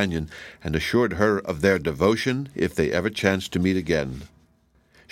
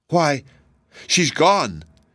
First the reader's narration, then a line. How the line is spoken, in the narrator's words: exclaimed the boy